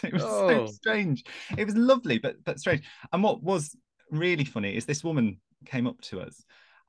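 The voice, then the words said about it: English accent. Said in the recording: “God, I love your accent. It's so English... But I am English... you are very quintessential”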